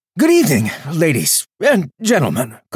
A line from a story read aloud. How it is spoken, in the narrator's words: Calder panted, trying to catch his breath and still speak as loudly as possible